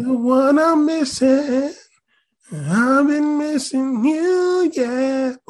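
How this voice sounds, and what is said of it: Sings in falsetto. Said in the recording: “You got a little falsetto there.”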